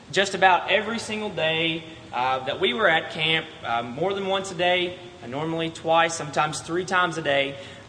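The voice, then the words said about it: Strained, fading voice. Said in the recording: “I'm losing my voice,”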